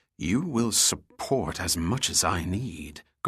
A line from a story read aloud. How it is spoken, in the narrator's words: Goyette hissed, his eyes quickly turning ice cold